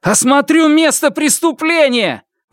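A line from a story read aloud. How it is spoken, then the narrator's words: Shouted, dawning sense of defeat. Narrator (Russian): выкрикнул Фанму, только теперь начиная осознавать, насколько тяжкое поражение потерпел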